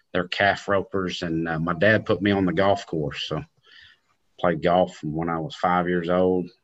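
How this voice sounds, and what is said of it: Country cowboy accent. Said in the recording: “That's where the accent probably is, cowboy family”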